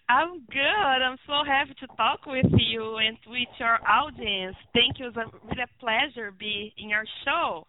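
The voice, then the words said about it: Brazilian accent. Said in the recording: “a little Brazilian accent”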